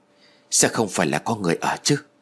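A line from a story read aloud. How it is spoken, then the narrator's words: Quiet question. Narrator (Vietnamese): Tôi liền nhỏ giọng hỏi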